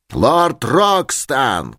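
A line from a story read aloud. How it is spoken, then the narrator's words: Shouting. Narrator (Russian): кричал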